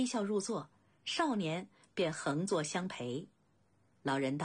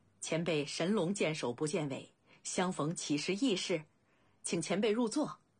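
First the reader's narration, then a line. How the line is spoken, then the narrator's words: Laughing. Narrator (Chinese): 未央笑道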